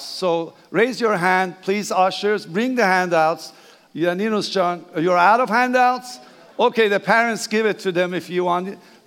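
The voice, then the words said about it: Persian accent. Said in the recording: “Please bear my accent, that's okay. I'm Persian.”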